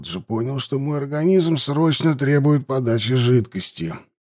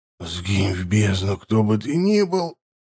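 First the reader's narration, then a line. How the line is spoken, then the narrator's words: Muttered. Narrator (Russian): пробормотал я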